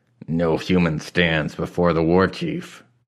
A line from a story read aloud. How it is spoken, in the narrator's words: the guard growled